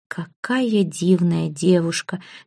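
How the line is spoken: Soundless whisper. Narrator (Russian): беззвучно шептали его губы

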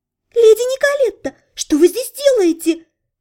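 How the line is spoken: Sudden falsetto exclamation. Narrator (Russian): воскликнула она, неожиданно перейдя на фальцет

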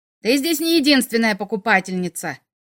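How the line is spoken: Woman's growl. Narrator (Russian): рыкнула хозяйка у занавески

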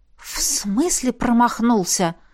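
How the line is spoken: Stunned whisper. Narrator (Russian): ошарашенно прошептала я

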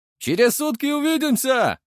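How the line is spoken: Farewell shout. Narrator (Russian): выкрикнул он на прощание

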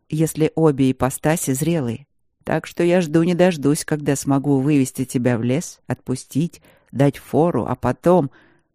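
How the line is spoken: Calm reply. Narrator (Russian): ответил он спокойно

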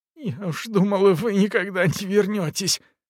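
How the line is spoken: Sobbing. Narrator (Russian): всхлипнула она

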